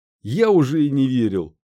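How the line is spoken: Leader's exclamation. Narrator (Russian): воскликнул главарь

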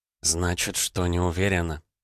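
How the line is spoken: Near whisper. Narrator (Russian): сказала она почти шепотом

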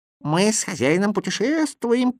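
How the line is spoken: Squeaky voice. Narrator (Russian): пискнул Кузя

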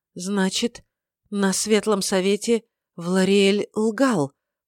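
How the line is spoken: Shocked exhale. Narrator (Russian): потрясенно выдохнула эльфийка

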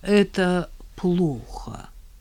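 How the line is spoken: Heavy-sighing drawl. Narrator (Russian): с тяжким вздохом протянул отец

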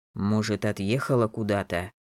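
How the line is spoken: Muttered. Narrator (Russian): пробормотал Ульгер

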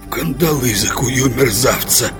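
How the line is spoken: Hissing. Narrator (Russian): прошипел Гарривиль

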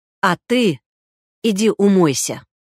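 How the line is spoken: Stern. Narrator (Russian): сказал Белогуров строго

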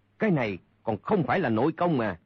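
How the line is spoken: Surprised, furious loud shout. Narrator (Vietnamese): Chu Thông bất giác ngạc nhiên, đồng thời lửa giận bừng lên quát lớn

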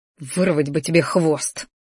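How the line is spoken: Quiet grumbling. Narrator (Russian): пробурчал тихо

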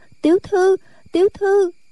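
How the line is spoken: Trembling cry. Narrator (Vietnamese): Nó run run kêu lên

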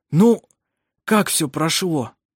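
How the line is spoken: Hoarse question. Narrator (Russian): спросил хриплым голосом

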